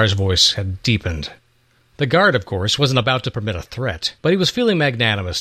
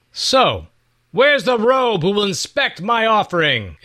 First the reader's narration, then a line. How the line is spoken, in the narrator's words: Issachar hollered up at the new temple protectors